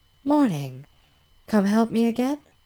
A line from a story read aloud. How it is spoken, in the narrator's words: asks cheerfully